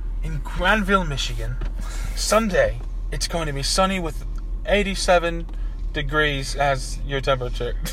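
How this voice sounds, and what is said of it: Put-on British accent. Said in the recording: “Do it in the British accent.”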